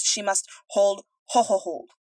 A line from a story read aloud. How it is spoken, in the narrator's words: roared Humdrum